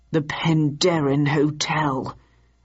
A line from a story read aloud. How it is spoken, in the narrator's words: announced Victor grimly